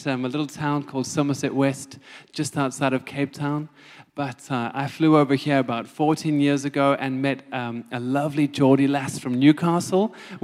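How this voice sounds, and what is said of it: South African accent. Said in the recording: “I'm South African, as you can hear from my accent”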